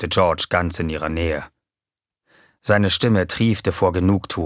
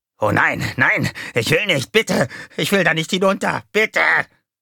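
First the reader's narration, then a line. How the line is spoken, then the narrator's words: Shrieking. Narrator (German): kreischte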